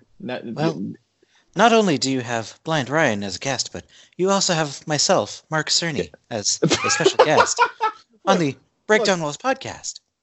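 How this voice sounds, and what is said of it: Imitates another person's voice. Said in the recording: “That's actually a very good impression. That is actually a very good impression... That man's voice is hypnotic”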